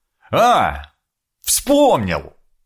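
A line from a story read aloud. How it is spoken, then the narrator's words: Happy triumphant exclamation. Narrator (Russian): Со счастливым лицом, будто решил сложнейшую задачу, воскликнул я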